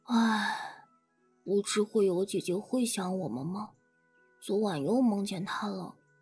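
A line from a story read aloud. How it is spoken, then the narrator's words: Sighing like an adult. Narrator (Chinese): 子豪大人般的叹息一声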